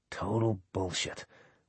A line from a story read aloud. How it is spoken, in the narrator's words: Wesley whispered